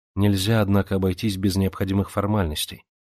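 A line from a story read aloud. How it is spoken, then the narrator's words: Calm. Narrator (Russian): спокойно сказала она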